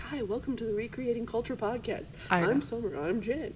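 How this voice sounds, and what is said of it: Fancy radio host voice. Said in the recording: “Your radio voice is on point today. ... they sound fancy every single time they say hello”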